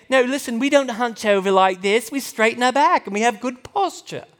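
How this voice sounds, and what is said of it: Weak put-on British accent. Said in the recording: “you can laugh at my lame British accent”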